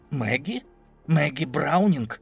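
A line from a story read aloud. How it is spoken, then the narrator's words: Quick whisper in ear. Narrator (Russian): Джулиус быстро зашептал на ухо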